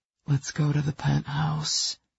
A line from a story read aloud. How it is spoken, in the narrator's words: he breathed, as tempting as the devil